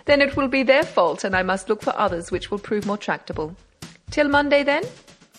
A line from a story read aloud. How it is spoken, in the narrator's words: said Beautrelet with a laugh